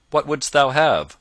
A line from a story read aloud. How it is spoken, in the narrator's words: quoth he sharply